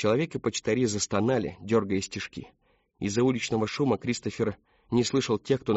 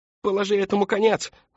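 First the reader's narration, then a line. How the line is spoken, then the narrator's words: Yelling. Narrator (Russian): заорал человек в девичьей скаутской форме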